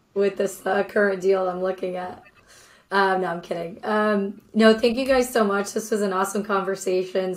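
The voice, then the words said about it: Strained, recovering lost voice. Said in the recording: “Sorry for the few coughing attacks. My voice went out this weekend, so I'm still recovering.”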